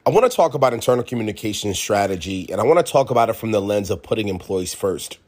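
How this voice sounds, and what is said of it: Congested, sick-sounding voice. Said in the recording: “Still a little bit sick here, so I do apologize for the voice here. That sounds a bit congested”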